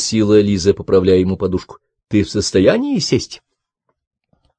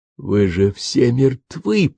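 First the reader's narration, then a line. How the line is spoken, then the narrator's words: Hoarse wheeze, painful coughing. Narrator (Russian): прохрипел и мучительно закашлялся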